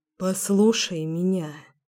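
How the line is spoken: Hoarse voice. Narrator (Russian): сказал тем же хриплым голосом

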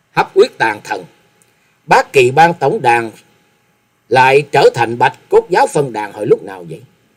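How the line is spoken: Cold. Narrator (Vietnamese): giọng lạnh lùng hướng về phía cổ xăm nói

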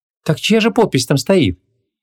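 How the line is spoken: Sighing. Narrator (Russian): вздохнула

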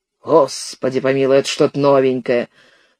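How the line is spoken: Tired, sudden verbal attack. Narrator (Russian): Сомс устало вдруг набросился на конюха

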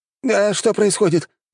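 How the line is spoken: Whining. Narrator (Russian): заскулили те

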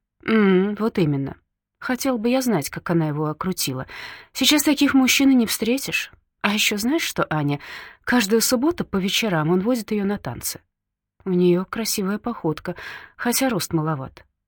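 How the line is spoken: Thoughtful. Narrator (Russian): задумчиво говорит Анна

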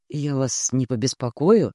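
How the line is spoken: Quiet. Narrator (Russian): спросил тихо

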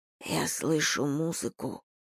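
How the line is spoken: Whispered. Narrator (Russian): прошептал

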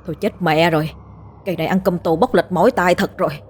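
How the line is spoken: Frightened muttering. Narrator (Vietnamese): nó cũng lẩm bẩm sợ hãi

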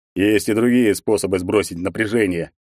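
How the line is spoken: Snorting reply. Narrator (Russian): хмыкнул ей в ответ Егор

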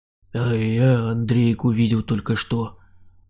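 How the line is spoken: Muttered. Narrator (Russian): пробормотал Саня

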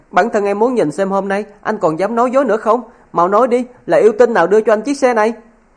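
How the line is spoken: Resentful howling. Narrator (Vietnamese): Tô Sang hậm hực hú lên

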